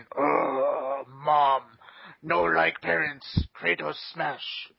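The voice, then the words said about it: Hulk voice impression. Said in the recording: “in your Hulk voice”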